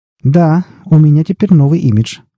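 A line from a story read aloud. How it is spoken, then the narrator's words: Laughing. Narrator (Russian): рассмеялся он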